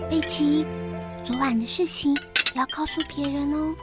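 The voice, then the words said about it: Speaking softly, near whisper. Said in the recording (Chinese): “小声”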